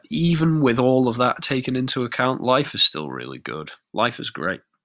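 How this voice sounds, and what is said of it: Congested, sore-throated voice. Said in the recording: “my nose is a disgrace, and I've got a sore throat”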